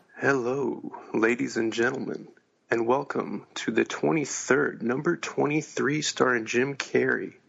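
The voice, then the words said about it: Soothing, sexy voice. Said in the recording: “my soothing, sexy voice”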